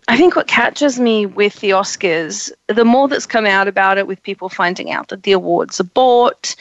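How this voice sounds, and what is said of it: Croaky, hoarse voice. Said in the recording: “I've had the flu for a week, so I'm losing my voice ... it's kind of still croaky”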